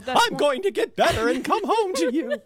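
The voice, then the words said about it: Impression of the mother from Totoro. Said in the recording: “does an amazing impression of the mother”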